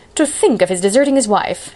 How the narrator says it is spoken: she said indignantly

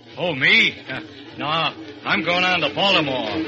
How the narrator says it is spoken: the fat man grunts

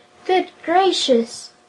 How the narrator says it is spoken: the Emperor exclaimed

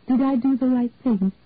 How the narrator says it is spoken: Angie asked the others anxiously

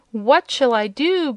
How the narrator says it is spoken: groaned the apparition, wringing his hands miserably

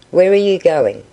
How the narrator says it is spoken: said the latter

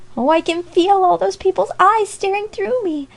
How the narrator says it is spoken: cried Amy

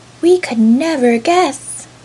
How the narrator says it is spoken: all the dolls cried

